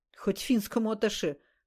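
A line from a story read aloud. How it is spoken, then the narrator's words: Wry snort. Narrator (Russian): хмыкнул Ласковин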